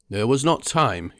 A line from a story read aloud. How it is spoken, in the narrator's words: he said